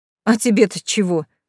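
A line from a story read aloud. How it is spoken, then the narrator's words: Scoffing grunt. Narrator (Russian): хмыкнул Тамерлан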